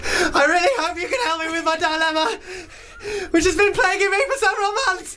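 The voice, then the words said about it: Scared, frightened voice. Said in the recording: “as if she's been chased through the woods ... So scared.”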